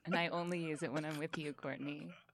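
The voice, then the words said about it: Put-on sexy radio voice. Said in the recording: “sexy voice ... where did this sexy voice come from? ... it's not my real voice. It's my fake radio voice.”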